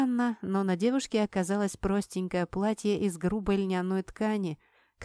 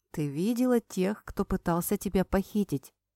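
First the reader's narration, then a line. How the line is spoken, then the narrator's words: Soft question. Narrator (Russian): мягко спросил он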